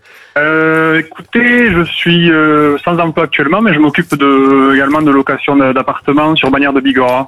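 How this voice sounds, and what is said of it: Slight Pyrenees regional French accent. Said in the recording (French): “petit accent des Pyrénées que j'entends”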